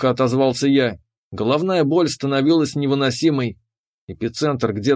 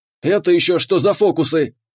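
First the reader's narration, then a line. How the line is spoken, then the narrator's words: Barking captain. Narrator (Russian): рявкнул капитан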